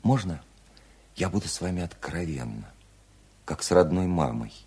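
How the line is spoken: Gentle question. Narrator (Russian): ласково спросила Вера

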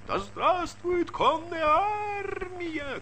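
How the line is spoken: Frenzied women's shouting. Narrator (Russian): кричали исступленно женские голоса

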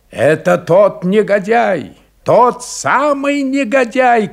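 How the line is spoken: Shouting. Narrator (Russian): кричал офицер

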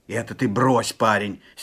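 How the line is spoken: Angry shout. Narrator (Russian): сердито вскричал Степан

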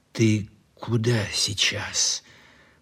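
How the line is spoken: Low-voiced question. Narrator (Russian): вполголоса спросил Лихонин

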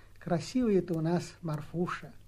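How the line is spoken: Tender, with deep sigh. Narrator (Russian): Настасья умилилась, вздохнула глубоко, молвила

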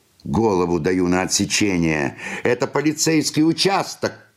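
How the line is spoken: Shouted. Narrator (Russian): крикнул кто-то

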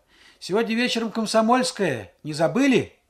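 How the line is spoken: Shout. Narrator (Russian): Шура с дороги обернулась и крикнула

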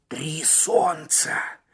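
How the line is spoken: Hoarse mumble. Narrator (Russian): хрипло пробормотал Маккен

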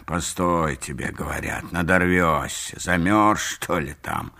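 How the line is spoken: Audible grumbling. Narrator (Russian): ворчал, впрочем, не совсем про себя

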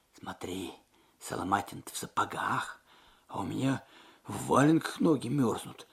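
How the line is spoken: Whispered. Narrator (Russian): шепнул Алексей

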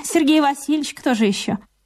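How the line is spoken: Calm. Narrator (Russian): Верочка ответила спокойно

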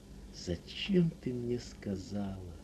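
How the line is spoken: Weak, miserable voice. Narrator (Russian): Несчастным, очень слабым голосом произнес он

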